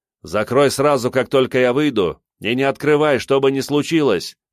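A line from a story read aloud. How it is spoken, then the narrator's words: Shouted. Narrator (Russian): крикнул ему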